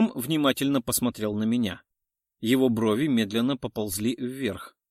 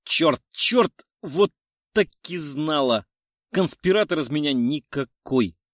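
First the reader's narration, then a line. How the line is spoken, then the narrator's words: Inner disappointed groan. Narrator (Russian): мысленно простонала от разочарования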